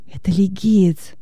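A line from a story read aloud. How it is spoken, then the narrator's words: Whisper. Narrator (Russian): шепнул Венеций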